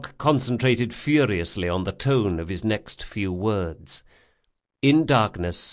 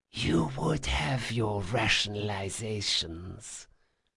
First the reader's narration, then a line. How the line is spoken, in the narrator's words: she whispered